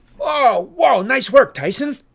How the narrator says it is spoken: I yelled

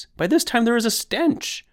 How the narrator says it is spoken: cries

